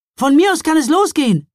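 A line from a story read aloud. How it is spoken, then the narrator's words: Called out, slightly breathless. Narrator (German): rief Mila ein wenig außer Atem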